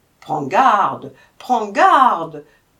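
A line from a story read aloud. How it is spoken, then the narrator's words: Guards shouting. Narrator (French): s'écrièrent les gardiens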